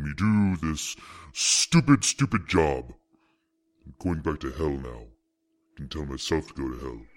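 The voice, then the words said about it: Bad impression of a devil voice. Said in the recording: “Thanks, Lucifer ... terrible devil impersonation”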